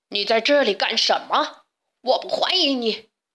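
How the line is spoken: Beast roaring. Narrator (Chinese): 野兽咆哮着

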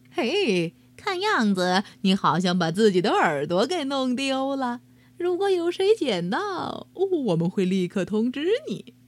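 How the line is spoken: Mocking, sly grin. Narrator (Chinese): 男人一脸坏笑的对没有耳朵的兔子说

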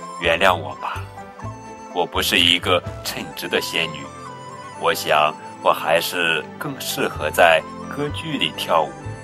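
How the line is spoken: Resigned sigh, apologetic. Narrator (Chinese): 仙女无奈的叹了口气，抱歉的说

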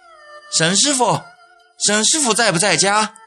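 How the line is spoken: Someone calling out. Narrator (Chinese): 有人喊

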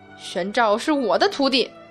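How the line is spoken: Loud. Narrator (Chinese): 他大声道

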